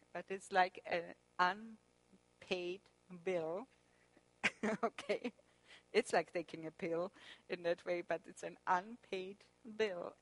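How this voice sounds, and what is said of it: German accent, mixes B and P. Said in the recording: “my German accent with the B and the P's sometimes”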